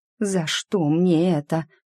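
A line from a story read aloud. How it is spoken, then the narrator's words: Despairing groan. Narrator (Russian): простонала я, не желая верить в происходящее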